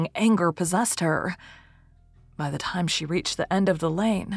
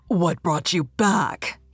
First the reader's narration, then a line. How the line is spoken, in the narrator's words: he growled, but more in bewilderment than rage